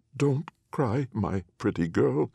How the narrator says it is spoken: said Anne of Rags, her voice now faltering a little

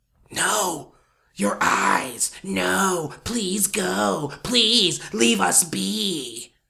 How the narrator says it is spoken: it whispered

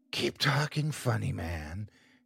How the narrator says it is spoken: she whispered

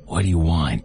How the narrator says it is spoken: a raspy voice questioned from the far corner

